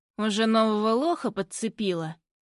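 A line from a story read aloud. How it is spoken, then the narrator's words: Said through gritted teeth. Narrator (Russian): Цедит он сквозь зубы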